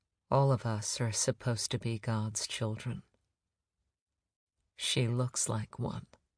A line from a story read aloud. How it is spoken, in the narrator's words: She said quietly